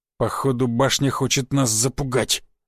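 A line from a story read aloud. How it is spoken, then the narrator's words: Growl. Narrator (Russian): зарычал Буян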